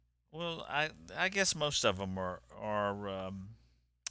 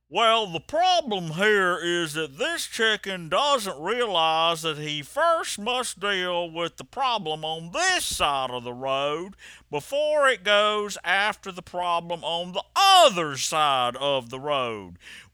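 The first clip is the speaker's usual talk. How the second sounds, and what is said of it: Imitates another person's voice. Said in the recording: “I'm gonna do an impression ... my very bad impressions ... who I'm trying to impersonate”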